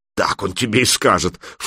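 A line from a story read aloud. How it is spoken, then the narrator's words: Scornful snort. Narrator (Russian): фыркнула Алена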